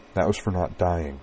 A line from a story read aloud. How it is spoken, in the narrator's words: she told him softly